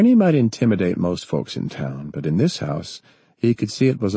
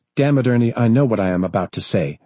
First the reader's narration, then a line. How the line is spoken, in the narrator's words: she snapped